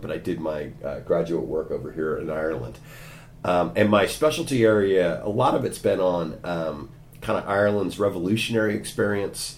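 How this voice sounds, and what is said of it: American accent, Californian. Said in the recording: “As you can tell from my accent, I'm not a native of Cork. I'm an American from California”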